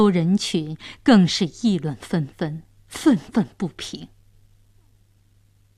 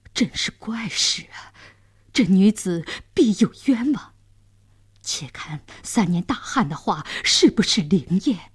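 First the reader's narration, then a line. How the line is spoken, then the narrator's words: Astonished muttering. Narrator (Chinese): 监斩官、刽子手也惊讶地嘟囔着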